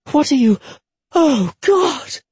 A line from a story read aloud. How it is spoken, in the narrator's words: she gasped